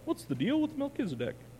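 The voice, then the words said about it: Imitates another person's voice, poorly. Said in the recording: “I felt like Jerry Seinfeld... That was a terrible impression.”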